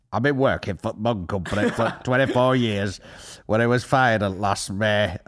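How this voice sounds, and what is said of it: Imitated voice like Jimmy Savile. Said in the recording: “I don't even know if that's accent. That's more Jimmy Savile.”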